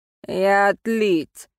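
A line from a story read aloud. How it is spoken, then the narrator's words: Rude reply. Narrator (Russian): грубо ответил молодой мужчина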